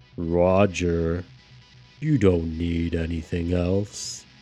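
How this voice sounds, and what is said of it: Deep voice. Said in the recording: “deep voice”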